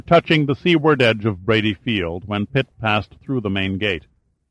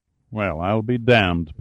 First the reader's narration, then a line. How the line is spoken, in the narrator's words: Pitt muttered